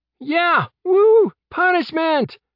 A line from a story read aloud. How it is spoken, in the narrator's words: Ron shouted from the spectator stands